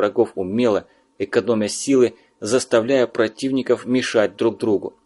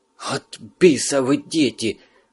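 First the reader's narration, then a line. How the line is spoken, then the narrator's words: Angry hiss. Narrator (Russian): зло прошипел сержант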